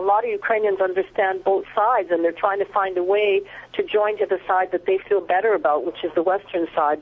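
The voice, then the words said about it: Canadian English accent. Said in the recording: “your accent gives you away as Canadian”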